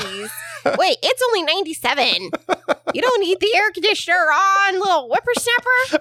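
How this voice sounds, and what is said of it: Imitates another person's voice. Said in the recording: “That's a good impression of me ... It's exactly how you sound.”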